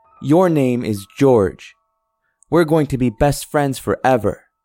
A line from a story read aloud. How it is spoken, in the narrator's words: daughter exclaimed